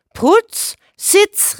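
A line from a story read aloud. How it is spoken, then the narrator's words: Called out. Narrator (German): rief der Nachbar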